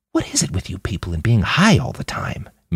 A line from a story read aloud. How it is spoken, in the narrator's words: Manny whispered back